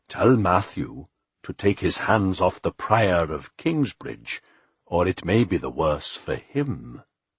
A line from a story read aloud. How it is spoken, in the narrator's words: Philip said calmly